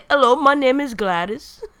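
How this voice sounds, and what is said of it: Failed British accent, sounding Indian. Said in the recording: “British accent ... English accent ... I don't know what accent that was that I just did ... I think it's some IT Indian dude came out”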